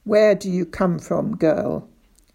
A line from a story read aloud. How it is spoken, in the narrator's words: he asked